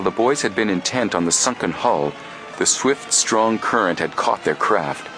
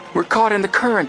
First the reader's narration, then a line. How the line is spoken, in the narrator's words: he exclaimed frantically